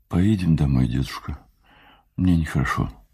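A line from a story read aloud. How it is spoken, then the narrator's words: Barely audible. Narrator (Russian): Джун сказала чуть слышно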